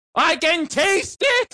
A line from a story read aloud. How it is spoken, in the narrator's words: He screamed